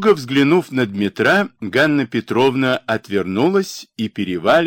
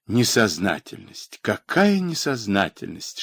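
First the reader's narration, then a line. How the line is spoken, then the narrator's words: Whisper. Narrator (Russian): шептала она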